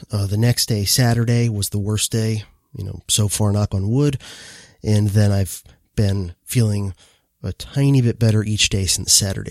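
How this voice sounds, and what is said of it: Hoarse voice. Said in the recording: “I'm still a bit hoarse”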